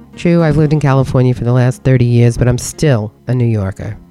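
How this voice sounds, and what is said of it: New York accent. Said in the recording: “I'm a New Yorker. Can you tell by my accent?”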